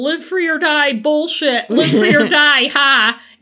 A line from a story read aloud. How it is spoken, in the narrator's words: yelling about all his grievances